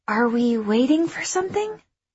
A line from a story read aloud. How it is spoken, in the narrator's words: I whispered to Irv